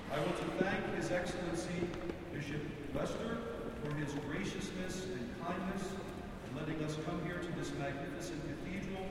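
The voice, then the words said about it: East Coast American twang. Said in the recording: “East Coast twang”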